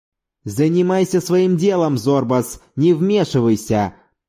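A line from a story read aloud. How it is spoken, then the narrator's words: Growled. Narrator (Russian): прорычал Маврантонис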